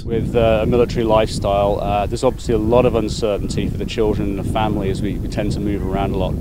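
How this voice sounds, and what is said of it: Noticeable non-American accent. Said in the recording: “you might have noticed an accent.”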